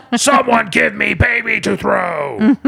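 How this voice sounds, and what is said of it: Imitates a fictional character's voice. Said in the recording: “That's my Dalinar impression... A spot on impression.”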